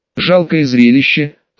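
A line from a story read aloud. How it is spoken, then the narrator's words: Cold smirk. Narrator (Russian): холодно усмехнулся мужчина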